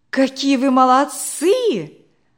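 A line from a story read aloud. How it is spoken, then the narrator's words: Exclaiming. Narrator (Russian): воскликнула Наташа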